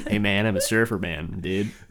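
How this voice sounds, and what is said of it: Put-on American surfer accent. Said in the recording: “Why are you on an American accent? ... there's a surfer, dude ... I'm trying to be American”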